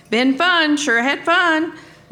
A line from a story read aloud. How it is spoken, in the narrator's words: yelled